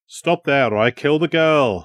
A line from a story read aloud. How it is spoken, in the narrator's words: Samlin shouted